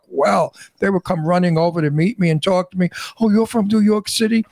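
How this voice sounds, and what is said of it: New York Brooklyn accent. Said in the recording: “my New York Brooklyn accent”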